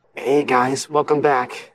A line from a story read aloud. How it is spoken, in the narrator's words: he murmured aloud, laughing wearily